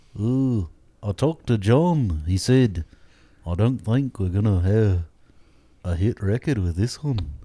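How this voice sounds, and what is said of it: Liverpudlian accent. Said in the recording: “Ventriloquist Liverpudlian accent ... It's very good. ... It's really good.”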